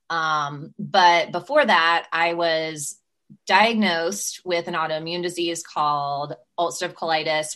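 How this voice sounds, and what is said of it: Southern American accent. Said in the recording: “if your listeners hear a Southern accent and they get really confused about why this LA girl sounds Southern”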